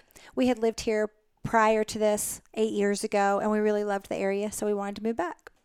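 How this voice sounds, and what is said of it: Southern American accent. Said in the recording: “But you're from the South. I'm getting in your accent.”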